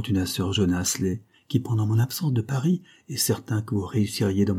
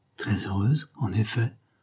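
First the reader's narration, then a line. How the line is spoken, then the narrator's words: Stammering. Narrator (French): balbutia le poète policier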